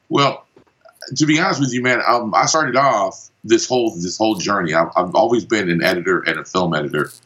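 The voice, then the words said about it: Los Angeles American accent. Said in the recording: “I've spent a ton of time in Los Angeles, California, because that's where the accent is from.”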